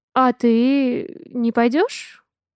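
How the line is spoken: Timid question. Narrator (Russian): Неожиданно робко спрашиваю я

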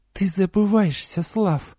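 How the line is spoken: Hissed through teeth. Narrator (Russian): процедила темная

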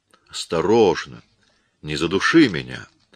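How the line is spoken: Soft, gentle. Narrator (Russian): мягко проговорил Коридон

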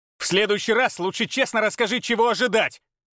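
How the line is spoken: Bark. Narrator (Russian): рявкнул он

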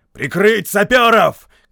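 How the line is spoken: Shout. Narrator (Russian): крикнул Кенни

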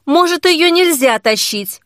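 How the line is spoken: Shouted. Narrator (Russian): крикнул

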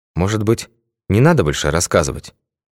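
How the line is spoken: Quiet question. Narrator (Russian): тихо спросил Башмаков

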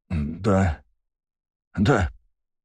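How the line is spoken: Muttering man. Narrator (Russian): пробормотал мужчина

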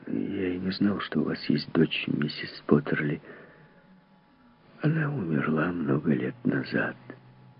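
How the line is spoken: Muttered. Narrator (Russian): Он пробормотал

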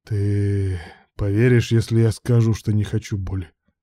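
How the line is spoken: Lifeless question. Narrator (Russian): спросил безжизненным голосом Руслан

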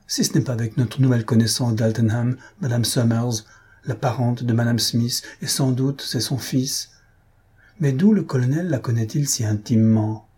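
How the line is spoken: Exclaimed. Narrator (French): s'écria Maria

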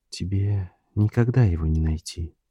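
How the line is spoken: Quiet female voice. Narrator (Russian): тихо произнесла она

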